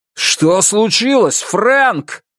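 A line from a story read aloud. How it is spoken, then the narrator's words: Shouted. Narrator (Russian): закричал он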